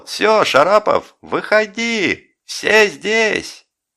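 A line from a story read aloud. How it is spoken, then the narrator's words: Yelled jubilantly. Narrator (Russian): Жеглов ликующий заорал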